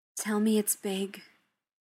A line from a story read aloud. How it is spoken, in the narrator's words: Tony breathed, low and savage